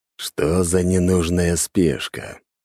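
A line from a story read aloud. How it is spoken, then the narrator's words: Grumbled. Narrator (Russian): пробурчал Дориан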